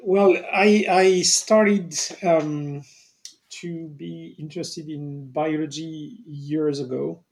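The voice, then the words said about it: French accent. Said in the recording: “you have a wonderful accent as well ... your lovely French accent”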